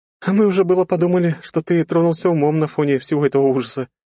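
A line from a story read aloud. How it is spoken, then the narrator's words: Giggling. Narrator (Russian): хихикнула Полина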